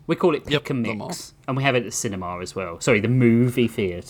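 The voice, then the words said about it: British accent. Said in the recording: “my cute British accent”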